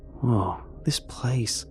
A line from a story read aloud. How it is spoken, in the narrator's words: I murmur to no one